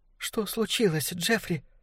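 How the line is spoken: Frightened question. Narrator (Russian): спросила она испуганно

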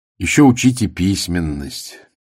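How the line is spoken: Playful sigh. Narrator (Russian): шутливо вздохнул Вирнорин

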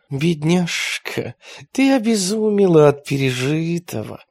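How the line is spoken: Gentle old sage. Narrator (Russian): ласково молвил мудрец

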